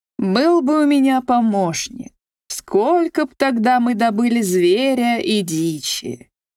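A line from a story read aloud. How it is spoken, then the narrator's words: Plain. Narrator (Russian): говорит охотник снова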